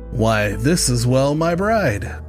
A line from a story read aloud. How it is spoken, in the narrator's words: he exclaimed with a sneer